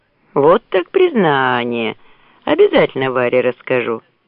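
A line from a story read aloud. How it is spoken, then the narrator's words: Laughing. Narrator (Russian): смеялся Борейко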